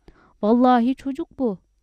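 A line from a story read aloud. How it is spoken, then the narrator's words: Shouting. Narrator (Turkish): diye bağırdı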